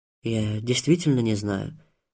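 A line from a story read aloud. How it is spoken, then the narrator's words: Plain, old man. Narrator (Russian): ответил старик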